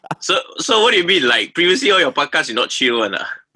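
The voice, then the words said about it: Malaysian English accent. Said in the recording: “you hear some Malaysian accent flying a lot around”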